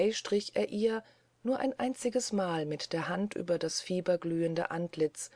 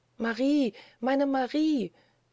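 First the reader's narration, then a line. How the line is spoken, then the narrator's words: Terrified mother calling outside. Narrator (German): rief in diesem Augenblick der Mutterstimme in Todesangst draußen auf der Treppe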